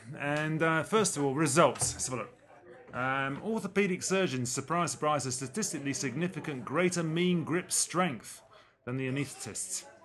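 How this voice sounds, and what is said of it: English accent. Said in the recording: “I have the cheesy English accent for you”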